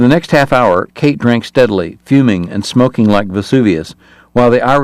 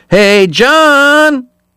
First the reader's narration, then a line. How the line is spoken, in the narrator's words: he told the priest before yelling